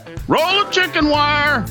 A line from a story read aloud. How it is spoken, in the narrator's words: The boy yells back